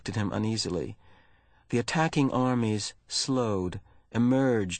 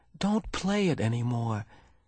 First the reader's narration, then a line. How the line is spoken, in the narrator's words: Jonas pleaded